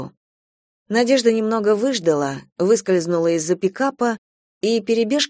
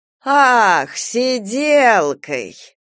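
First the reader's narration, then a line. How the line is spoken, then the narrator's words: Drawn-out, indescribable intonation. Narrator (Russian): протянула аптекарша с непередаваемой интонацией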